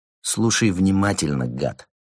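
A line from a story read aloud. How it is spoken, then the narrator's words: Hissed. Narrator (Russian): прошипел Карим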